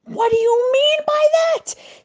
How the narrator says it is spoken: screamed the pirates

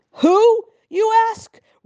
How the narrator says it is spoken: roared the governor

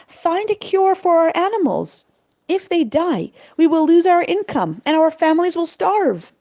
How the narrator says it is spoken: they begged Zvulun Binyamin

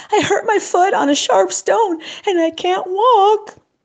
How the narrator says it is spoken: sobbed the boy

